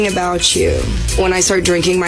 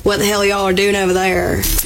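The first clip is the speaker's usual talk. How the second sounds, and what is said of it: Heavy drunken country accent. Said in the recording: “my accent turns up to like I feel like I have a pretty neutral speaking accent, and then second I get a little tipsy, it's just like you can't even understand what I'm saying. Kenny calls me”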